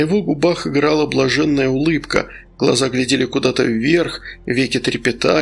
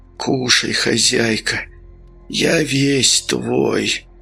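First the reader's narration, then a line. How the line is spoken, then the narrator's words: Moan of pleasure. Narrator (Russian): Он застонал от наслаждения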